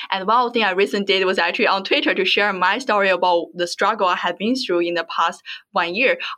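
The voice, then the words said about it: Strong non-native English accent. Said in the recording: “I have strong accent”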